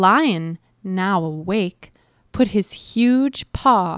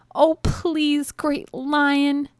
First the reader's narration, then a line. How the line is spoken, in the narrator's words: begged the mouse